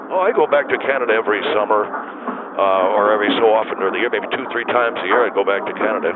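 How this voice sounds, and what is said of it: Canadian accent. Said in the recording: “you still have your Canadian accent?”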